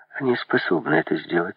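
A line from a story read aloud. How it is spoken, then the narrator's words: Calm. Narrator (Russian): спокойно сказала Изабель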